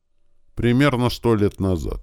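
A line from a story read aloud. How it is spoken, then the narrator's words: Somewhat sad. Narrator (Russian): как-то печально сказал наш собеседник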